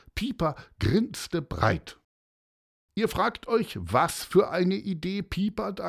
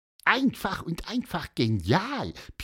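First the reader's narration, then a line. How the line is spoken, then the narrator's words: Squeaky. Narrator (German): piepste er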